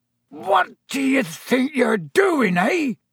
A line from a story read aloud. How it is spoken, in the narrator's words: he roared, so suddenly